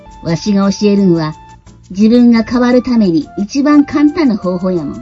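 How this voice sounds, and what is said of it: Put-on Kansai dialect. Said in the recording (Japanese): “見事に 関西弁で 再現してくださった”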